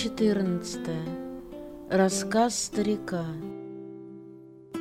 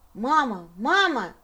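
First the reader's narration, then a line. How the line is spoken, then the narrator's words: Shouting. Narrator (Russian): закричал он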